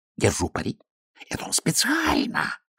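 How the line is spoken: Whispered. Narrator (Russian): шепнул Аметистов

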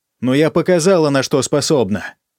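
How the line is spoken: Barked shout. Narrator (Russian): рявкнула я в пустоту

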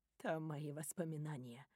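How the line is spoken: Quiet. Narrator (Russian): тихо говорит она

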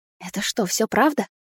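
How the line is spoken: Fearful whispered question. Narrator (Russian): шепотом спросила я, боясь, что если повышу голос, хоть немного все беды станут реальными

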